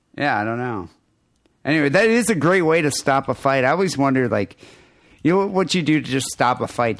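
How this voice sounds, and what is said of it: Nasally American accent. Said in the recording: “my nasally American accent”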